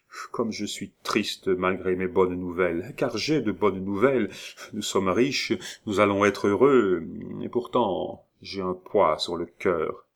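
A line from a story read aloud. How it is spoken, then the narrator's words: Altered voice. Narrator (French): prononça-t-il d'une voix changée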